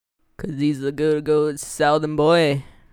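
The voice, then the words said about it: Bad put-on Southern accent. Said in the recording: “That wasn't that was a bad accent. ... Southern accent”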